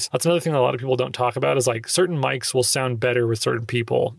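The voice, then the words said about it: Somewhat nasal voice. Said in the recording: “I have kind of like a nasally ish voice.”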